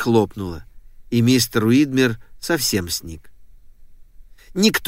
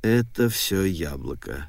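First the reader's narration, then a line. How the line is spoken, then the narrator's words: Muttered. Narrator (Russian): пробормотал мистер Уидмер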